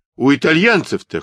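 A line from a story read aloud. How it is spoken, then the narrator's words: Snort. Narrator (Russian): хмыкнул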